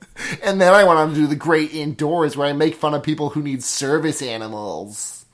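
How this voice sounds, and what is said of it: Imitates another person's voice. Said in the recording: “That's a really good Joel McHale impression.”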